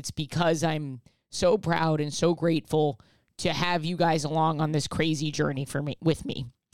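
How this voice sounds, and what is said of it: Emotional voice. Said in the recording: “hear the emotion in my voice”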